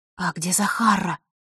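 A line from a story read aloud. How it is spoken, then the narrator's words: Quiet question. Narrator (Russian): так же тихо спросила Василиса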